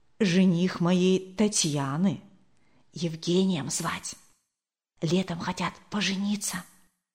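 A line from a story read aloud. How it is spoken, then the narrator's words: Whispered in ear. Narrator (Russian): Зинаида Кирилловна шепнула на ухо Марии Николаевне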